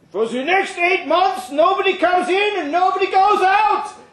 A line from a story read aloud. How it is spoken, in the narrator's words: he shouted over the wind